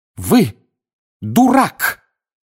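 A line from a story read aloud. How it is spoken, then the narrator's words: Angry exclamation. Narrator (Russian): гневно воскликнула профессор МакГонагал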